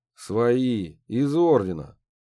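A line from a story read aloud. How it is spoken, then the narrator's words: Lazy reply. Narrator (Russian): Так же лениво ответил Борис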